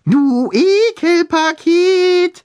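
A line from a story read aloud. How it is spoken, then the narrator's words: High falsetto. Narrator (German): rief er mit hoher Fistelstimme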